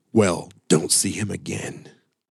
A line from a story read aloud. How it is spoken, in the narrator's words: coldly at Candy and growled